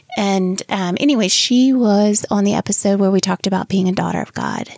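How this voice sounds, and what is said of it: Slight Southern twang. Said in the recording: “my little Southern twang”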